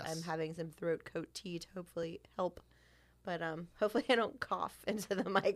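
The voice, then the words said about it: Slightly nasal, scratchy voice. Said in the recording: “I'm on the downswing of a little head cold ... I sound a little nasally or scratchy”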